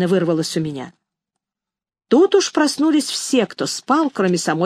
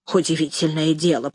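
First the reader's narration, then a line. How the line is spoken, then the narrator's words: Grumbling stout woman. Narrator (Russian): проворчала толстуха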